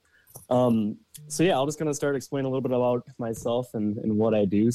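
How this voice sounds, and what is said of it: Minnesota accent. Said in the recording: “Minnesota ... you'll notice an accent with”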